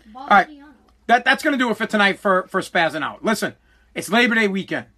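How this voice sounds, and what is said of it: Boston accent. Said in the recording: “I don't have a Mexican accent, bro. I got a Boston accent.”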